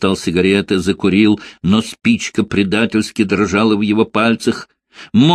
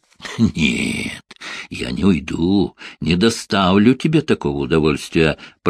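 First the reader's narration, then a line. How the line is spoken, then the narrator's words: Hissing. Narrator (Russian): прошипел Бирн-старший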